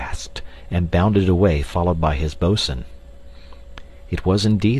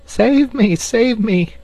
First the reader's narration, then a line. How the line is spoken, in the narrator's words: cried Nibs